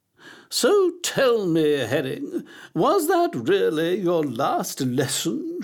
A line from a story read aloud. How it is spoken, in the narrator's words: she asked, her voice bubbling like a pan of thick gloop on a stove